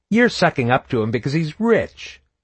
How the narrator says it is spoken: Joshua sneered

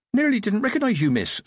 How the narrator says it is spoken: said Amber cheerfully

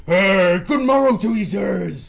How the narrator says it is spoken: he called cheerfully

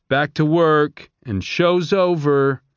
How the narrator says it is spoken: the peacekeepers shouting

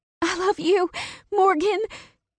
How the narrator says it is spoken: she cried

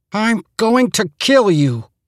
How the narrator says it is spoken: Bernie gasped

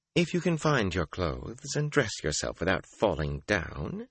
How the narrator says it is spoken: she said calmly

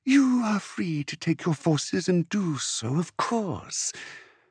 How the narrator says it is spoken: Zuzuli Mindrek said lazily

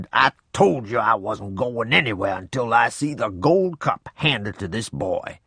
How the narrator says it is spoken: Snorting and growling, Grandpa said

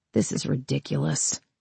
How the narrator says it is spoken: Amanda muttered

